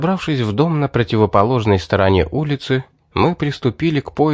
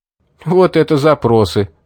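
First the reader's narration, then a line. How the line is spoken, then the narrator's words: Chuckling. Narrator (Russian): хохотнул Улис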